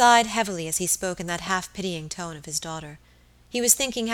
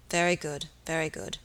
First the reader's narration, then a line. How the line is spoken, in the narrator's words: muttered the baronet